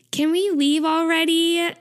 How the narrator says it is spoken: Taeyong whines

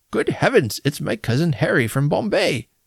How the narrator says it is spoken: The uncle of my brother's wife, exclaiming

